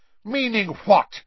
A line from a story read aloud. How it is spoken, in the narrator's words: snarled Snape